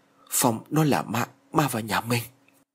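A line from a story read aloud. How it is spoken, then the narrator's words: Trembling frightened mutter. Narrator (Vietnamese): ông run rẩy lẩm bẩm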